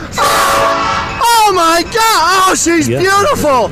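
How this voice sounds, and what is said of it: Excited screaming. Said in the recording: “he's screaming”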